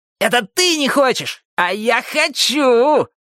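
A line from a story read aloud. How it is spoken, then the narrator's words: Yelling. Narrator (Russian): завопил Джонни О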